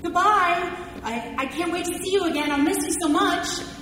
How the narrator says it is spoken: Justin shouted at him

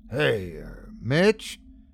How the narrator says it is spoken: I mumble

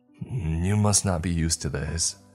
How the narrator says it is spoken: Roxanne sighed

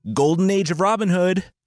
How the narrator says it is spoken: Robin yelled

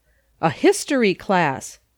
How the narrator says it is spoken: did John exclaim

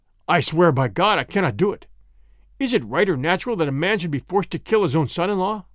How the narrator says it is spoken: When Henri Marais heard this, he exclaimed

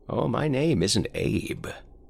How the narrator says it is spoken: he rasped

